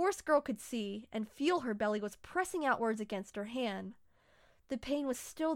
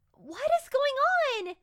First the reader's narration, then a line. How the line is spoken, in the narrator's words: yelled